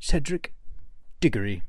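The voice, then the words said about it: Put-on British accent. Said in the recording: “It's easier if I do it in a British accent.”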